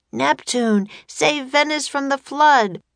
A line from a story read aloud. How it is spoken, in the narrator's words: cried Jack